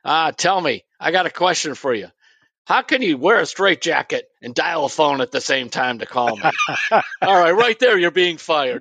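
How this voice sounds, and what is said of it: Imitates another person's voice. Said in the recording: “impersonation. It was a good one”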